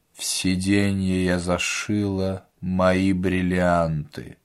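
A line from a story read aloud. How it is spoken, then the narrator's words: Flat indifferent voice. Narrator (Russian): Клавдия Ивановна деревянным равнодушным голосом сказала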